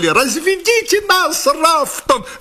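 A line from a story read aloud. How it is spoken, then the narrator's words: Shrill squeal. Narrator (Russian): взвизгнул он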